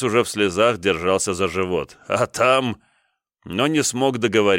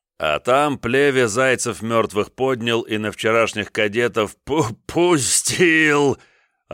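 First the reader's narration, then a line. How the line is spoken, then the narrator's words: Unrestrained laughter. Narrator (Russian): Они уже не сдерживаясь и забыв про чины, хохотали, как в бытность юными офицерами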